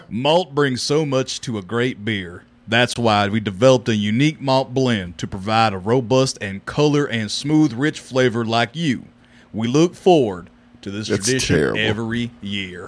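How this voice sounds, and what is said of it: Exaggerated Texan accent, ad-reading style. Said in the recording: “That is horrible. ... That's how Texans sound. ... A horrendous accent.”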